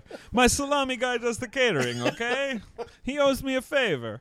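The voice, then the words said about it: Impression of Dino De Laurentiis. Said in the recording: “my impression of Dino”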